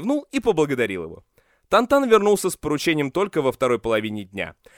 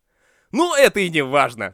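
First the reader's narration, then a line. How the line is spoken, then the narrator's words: Dismissive snort, confident. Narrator (Russian): Ши Цаньшань пренебрежительно фыркнул и уверенно добавил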